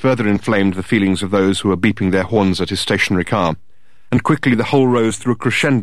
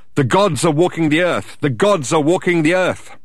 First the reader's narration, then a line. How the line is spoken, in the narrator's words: started to shout out